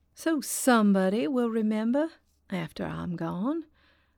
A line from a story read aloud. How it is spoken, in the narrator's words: said Eileen, her voice now more wistful than defiant